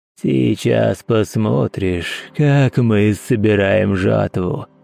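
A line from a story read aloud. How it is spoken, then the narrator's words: Hoarse rasp. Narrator (Russian): прохрипел он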